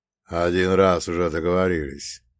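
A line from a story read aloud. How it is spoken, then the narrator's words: Gloomy priest. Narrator (Russian): мрачно произнес батюшка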